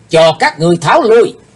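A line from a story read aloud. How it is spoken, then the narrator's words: Sudden loud shout. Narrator (Vietnamese): thiếu giáo chủ của âm ma giáo bỗng hét vang lên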